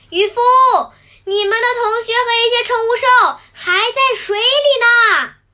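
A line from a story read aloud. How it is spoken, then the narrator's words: Urgent shout. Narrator (Chinese): 古奇兽赶紧朝他们大喊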